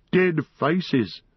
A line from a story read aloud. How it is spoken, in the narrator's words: Gollum laughed